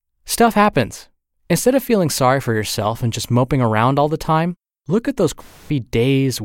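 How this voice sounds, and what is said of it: Usual voice. Nothing is said of it.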